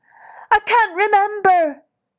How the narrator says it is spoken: he wailed

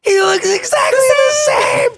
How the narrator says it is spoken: Indy screaming out

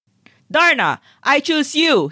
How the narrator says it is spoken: he yells

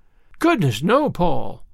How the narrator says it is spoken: exclaimed Anne in amazement

